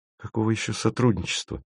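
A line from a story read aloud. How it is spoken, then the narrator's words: Unfriendly mumble. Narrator (Russian): неприветливо бормочет Маша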